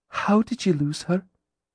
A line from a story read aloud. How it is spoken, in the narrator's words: she asked gently